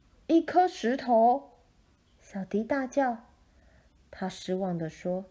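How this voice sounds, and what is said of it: Usual voice. Nothing is said of it.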